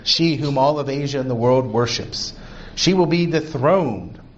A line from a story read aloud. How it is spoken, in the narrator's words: he exclaimed